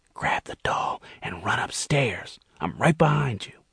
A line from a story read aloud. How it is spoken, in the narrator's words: Gerald whispered